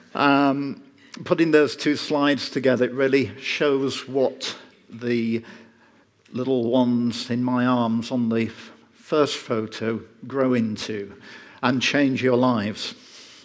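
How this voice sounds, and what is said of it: Yorkshire English accent. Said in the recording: “living in Yorkshire, England, hence the funny accent.”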